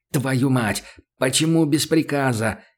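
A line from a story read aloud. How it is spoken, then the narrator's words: Furious hiss. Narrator (Russian): яростно зашипел он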